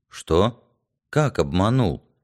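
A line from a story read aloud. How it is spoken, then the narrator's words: Lost, bewildered mutter. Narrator (Russian): потерянно пробормотал Яр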